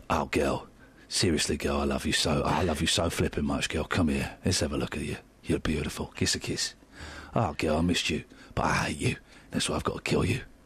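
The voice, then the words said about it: EastEnders-style soap character voice. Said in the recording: “I would be excellent in EastEnders ... I can only do this voice because I'm losing it a bit.”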